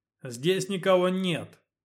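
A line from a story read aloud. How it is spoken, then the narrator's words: Shouted from inside. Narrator (Russian): крикнул он, не выходя наружу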